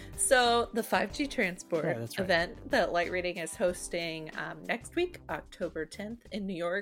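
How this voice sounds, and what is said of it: Usual voice. Nothing is said of it.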